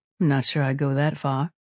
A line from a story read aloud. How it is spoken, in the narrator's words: the woman said in a dry tone